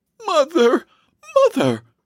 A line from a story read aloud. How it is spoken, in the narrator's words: exclaimed